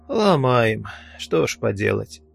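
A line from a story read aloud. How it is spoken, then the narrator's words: Sighing. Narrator (Russian): вздохнул я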